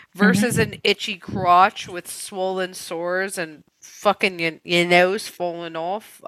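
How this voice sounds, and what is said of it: Put-on Australian accent. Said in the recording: “That was Australian. ... What was that? Cockney?”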